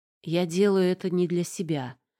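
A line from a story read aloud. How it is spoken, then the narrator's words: Grim. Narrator (Russian): ответил мрачно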